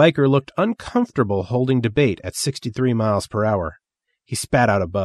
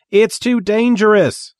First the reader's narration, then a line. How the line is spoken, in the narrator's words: Sparkle Jones shouted back